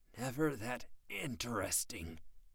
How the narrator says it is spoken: he grunted

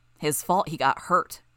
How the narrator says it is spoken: Bitch snarled

